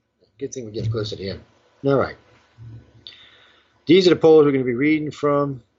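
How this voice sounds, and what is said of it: Strained, fading hoarse voice. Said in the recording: “Damn, I'm losing my voice.”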